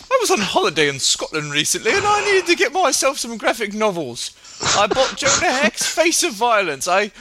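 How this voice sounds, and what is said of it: Exaggeratedly bad British accent. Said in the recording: “the worst British accent ever”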